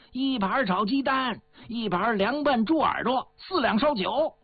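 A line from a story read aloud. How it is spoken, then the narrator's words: Shopkeeper calling out loudly. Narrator (Chinese): 老板 吆喝着朝里边喊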